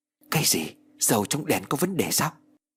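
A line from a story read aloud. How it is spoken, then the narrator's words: Startled, frightened. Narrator (Vietnamese): Tên béo giật mình sợ hãi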